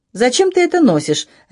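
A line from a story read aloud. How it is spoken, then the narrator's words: Sharp question. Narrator (Russian): резко спросила я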